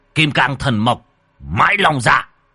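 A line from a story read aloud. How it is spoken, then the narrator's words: Shout. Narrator (Vietnamese): Nhà Tam nhà Tứ quát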